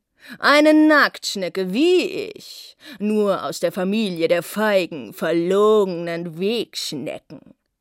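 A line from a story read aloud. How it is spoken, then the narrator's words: Big slug sneering. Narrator (German): höhnte der große weiße Schnegel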